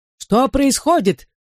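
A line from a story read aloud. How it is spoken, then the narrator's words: Shouted. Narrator (Russian): выкрикнула она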